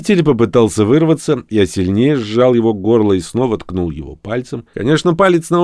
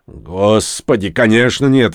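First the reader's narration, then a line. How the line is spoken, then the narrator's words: Offended tone. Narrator (Russian): оскорбленным тоном ответил Дек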